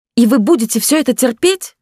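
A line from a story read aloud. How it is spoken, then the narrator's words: Shouted out. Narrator (Russian): выкрикнула она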